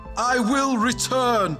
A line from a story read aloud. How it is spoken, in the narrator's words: Vega shouted to her